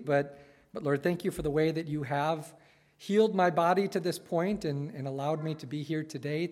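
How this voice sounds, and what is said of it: Slightly weak voice. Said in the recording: “my voice is still a little weak from coughing this week”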